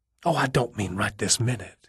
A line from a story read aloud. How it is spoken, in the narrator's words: he whispered